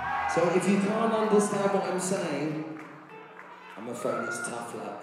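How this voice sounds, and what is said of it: London accent. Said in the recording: “I'm the London bloke. This is the London accent”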